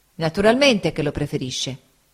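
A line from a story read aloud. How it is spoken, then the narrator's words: Plain. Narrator (Italian): disse Steerforth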